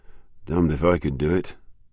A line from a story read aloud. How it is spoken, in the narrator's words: muttered Jackman